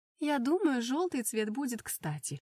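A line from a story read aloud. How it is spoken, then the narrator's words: Joyful cackling. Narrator (Russian): радостно кудахтала тетушка Карина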